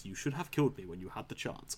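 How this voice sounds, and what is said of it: Poor Darth Vader impression. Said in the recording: “I do a terrible Darth Vader impression”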